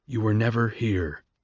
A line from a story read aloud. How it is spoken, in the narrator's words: Coriolanus whispered in Lucy Gray's ear